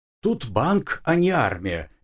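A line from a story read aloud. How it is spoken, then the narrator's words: Cheerful. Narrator (Russian): весело сообщил я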